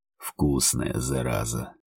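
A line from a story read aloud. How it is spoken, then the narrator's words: Excited hoarse rasp. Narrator (Russian): Возбужденно прохрипел он мне в губы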